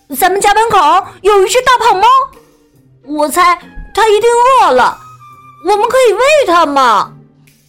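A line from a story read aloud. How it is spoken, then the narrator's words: Child shouting. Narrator (Chinese): 一个小男孩大叫起来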